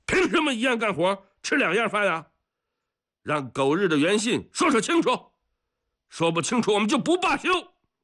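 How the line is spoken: Shouting. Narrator (Chinese): 李伯勇 大喊

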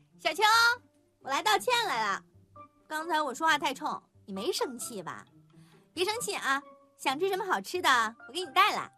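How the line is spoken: Cheerful and loud. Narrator (Chinese): 曲筱绡兴高采烈地大声地说

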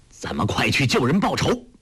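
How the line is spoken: Urgent shout. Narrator (Chinese): 丘处机叫道

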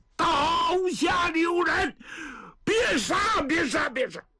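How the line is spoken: Reluctant forced shout. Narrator (Chinese): 老程也是硬着头皮呀、啊，喊了一声

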